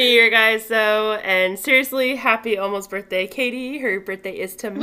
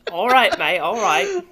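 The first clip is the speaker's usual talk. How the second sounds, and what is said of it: Put-on Australian or New Zealand accent. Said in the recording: “This is definitely like a New Zealand or Australian accent”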